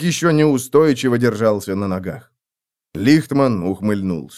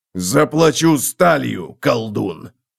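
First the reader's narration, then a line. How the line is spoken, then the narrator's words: Growl. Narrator (Russian): прорычал Готрек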